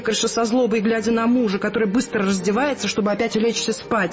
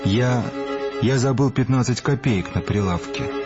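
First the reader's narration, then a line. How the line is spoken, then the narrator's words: Mumbling. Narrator (Russian): бормочет аптекарь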